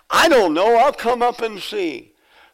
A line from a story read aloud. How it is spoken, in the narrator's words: the 94-year-old sister yells back